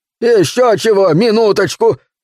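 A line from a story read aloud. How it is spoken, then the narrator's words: Shouted. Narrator (Russian): прокричал Каскер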